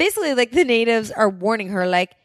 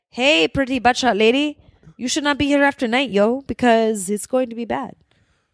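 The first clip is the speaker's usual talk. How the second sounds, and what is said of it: Impression of warning locals' voice. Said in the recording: “That is an amazing impression.”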